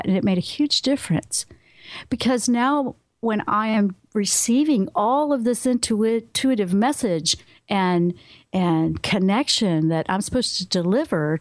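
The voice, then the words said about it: Mild Southern American twang. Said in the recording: “I had to make sure I wasn't talking too Southern, you know, with my twang. It's still there”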